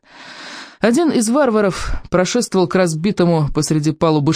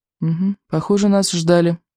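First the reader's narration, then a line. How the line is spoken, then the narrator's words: Gloomy. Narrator (Russian): мрачно сказал Икинг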